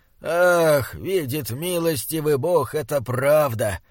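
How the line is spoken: Moaning. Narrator (Russian): простонал он

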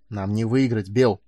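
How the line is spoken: Hissing. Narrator (Russian): прошипел Майлз

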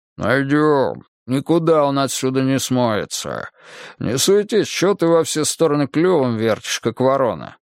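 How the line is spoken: Gruff older man's rumble. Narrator (Russian): Второй боец, немолодой, хмурый и усатый, прогудел

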